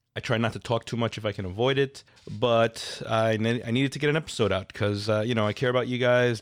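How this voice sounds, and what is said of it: Nasal, congested voice from a cold. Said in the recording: “hear it in my voice, but I'm a little nasally. I am under the weather. I have a cold”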